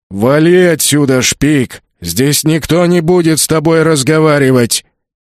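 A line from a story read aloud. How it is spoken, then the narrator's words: Booming orc voice. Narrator (Russian): прогудел орк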